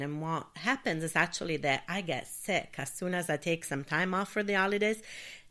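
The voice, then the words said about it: Sick, congested voice. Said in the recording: “you might even hear it in my voice now that I'm still recovering from this like terrible cold and bronchitis”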